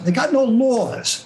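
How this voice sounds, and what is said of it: Richard Feynman impression, New York accent. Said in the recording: “He's got a great New York accent.”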